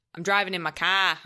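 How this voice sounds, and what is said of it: Imitated Boston accent. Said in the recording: “every time that his Boston accent came out, I would just repeat him. We did that too.”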